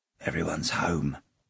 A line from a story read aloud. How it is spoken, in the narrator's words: whispered one of the plumbers